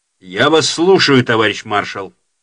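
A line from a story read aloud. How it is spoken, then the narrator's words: Loud. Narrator (Russian): сказал громко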